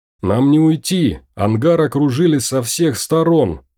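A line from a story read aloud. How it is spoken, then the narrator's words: Shout. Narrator (Russian): крикнул Мартин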